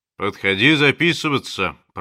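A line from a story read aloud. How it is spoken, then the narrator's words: Deep bass voice. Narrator (Russian): пробасил он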